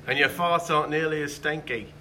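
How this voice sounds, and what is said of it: Put-on British accent. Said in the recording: “It sounded good in the British accent.”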